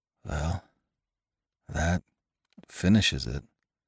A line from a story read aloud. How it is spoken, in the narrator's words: he muttered brokenly